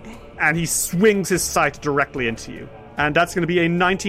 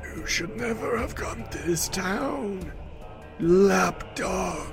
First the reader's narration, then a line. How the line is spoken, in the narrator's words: Harlow groans and he says